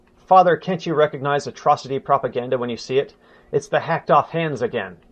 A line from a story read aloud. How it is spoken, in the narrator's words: Rudolf, too, exclaimed